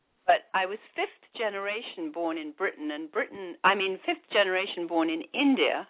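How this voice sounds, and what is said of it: British accent. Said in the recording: “I'm British, hence the different accent.”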